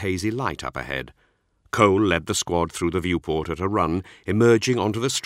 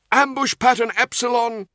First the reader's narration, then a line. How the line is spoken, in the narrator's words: he called out